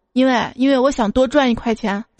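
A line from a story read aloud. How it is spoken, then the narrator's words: Calm, indifferent. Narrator (Chinese): 老板淡淡的说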